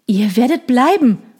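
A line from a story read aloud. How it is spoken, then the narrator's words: Calling out. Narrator (German): rief er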